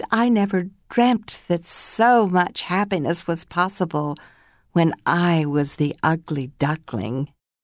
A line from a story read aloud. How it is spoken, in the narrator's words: from the depths of his heart, he joyfully exclaimed